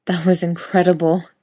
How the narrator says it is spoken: Jensen pants

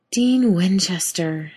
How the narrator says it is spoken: she sighed

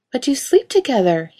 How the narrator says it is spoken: he spluttered

